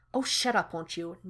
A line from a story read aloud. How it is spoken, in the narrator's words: Nyota snaps